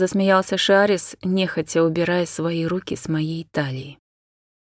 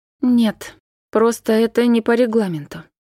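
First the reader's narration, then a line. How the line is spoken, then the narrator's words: Through gritted teeth. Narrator (Russian): Натара и процедила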